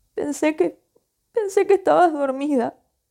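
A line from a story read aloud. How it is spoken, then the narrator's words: Sobbing. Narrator (Spanish): sollozó Beth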